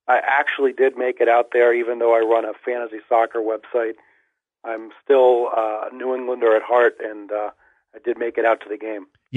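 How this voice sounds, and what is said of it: Slightly hoarse voice. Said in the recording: “my voice being a little hoarse”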